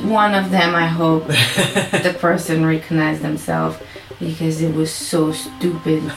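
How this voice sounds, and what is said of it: Strong French Canadian accent. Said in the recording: “I definitely have a strong accent. I'm a French Canadian.”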